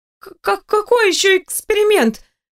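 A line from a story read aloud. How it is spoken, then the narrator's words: Exclaimed. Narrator (Russian): воскликнула я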